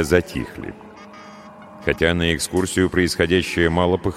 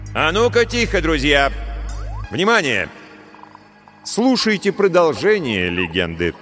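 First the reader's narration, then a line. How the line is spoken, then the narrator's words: Sudden loud shout. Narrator (Russian): Стас вдруг громко крикнул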